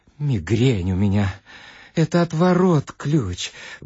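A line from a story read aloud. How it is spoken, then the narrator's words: Muttering. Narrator (Russian): бормотал Хохолков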